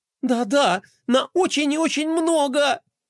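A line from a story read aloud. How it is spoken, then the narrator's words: Earnest, then loud sobbing. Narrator (Russian): подтвердила, не уловив сарказма, и разрыдалась так громко, как только могла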